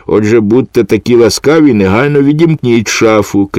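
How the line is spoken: Shouted. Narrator (Ukrainian): крикнув Філе

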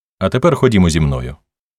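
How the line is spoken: Plain. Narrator (Ukrainian): сказав Вой

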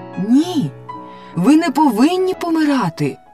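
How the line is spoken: Exclaiming. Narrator (Ukrainian): вигукнула Софі

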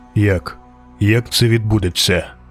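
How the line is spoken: Cold, emotionless question. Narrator (Ukrainian): запитав нарешті, холодно й без емоцій

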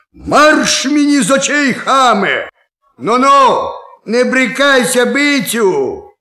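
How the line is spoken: Shouting. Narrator (Ukrainian): крикне

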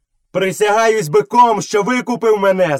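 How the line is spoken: Shouting. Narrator (Ukrainian): закричав Мауглі

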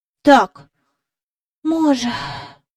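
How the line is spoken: Soft sigh. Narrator (Ukrainian): сказав Майкл, тихенько зітхнувши

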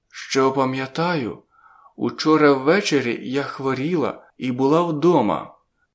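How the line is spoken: Cautious hoarse voice. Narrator (Ukrainian): говорила вона обережно, хрипким голосом

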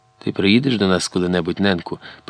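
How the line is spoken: Tearful whisper. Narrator (Ukrainian): прошепотіла крізь сльози Златка

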